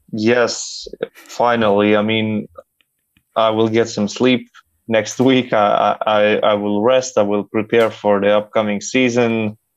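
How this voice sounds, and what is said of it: Tired, fatigued voice. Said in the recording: “as you can probably hear it in my voice, a lot of fatigue, a lot of lost sleep”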